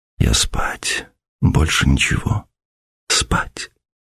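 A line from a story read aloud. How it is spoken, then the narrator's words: Whisper facing wall. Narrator (Russian): прошептала Ася, не поворачиваясь от стены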